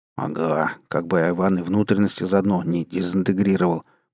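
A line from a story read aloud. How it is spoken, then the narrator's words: Gloomy grumble. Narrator (Russian): проворчал хмурый 5-й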